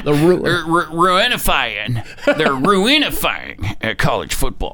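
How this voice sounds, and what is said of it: Imitates another person's voice. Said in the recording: “your next George Bush impersonation”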